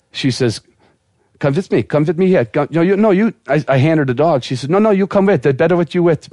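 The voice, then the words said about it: Poor imitation of female Russian accent. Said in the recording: “that's as best I can do for a female Russian accent ... That's the worst Russian accent I've ever heard.”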